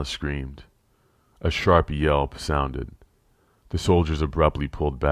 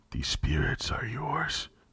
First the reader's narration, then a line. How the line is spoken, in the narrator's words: he whispered hoarsely, a desperate light in his eyes